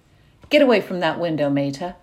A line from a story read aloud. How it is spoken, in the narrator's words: barked from across the room